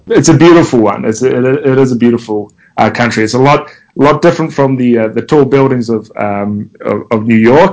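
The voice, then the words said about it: New Zealand accent. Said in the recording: “as people can probably tell with my accent, I'm not originally from the US. I come from a small country named New Zealand.”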